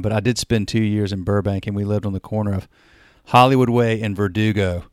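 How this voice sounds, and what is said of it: Southern US accent. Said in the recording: “as you can tell from accent, I'm the South. I'm from North Carolina”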